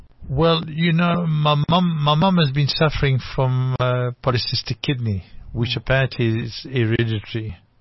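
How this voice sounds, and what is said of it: French accent. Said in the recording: “I trace an accent, a French accent.”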